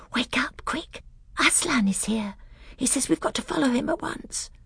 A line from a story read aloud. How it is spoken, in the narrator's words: she whispered in his ear